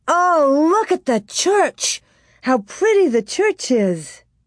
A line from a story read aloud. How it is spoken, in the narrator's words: Laura exclaimed